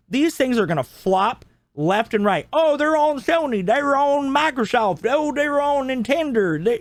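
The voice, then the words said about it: Sudden Arkansas accent. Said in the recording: “why are you accent. Suddenly from Arkansas?”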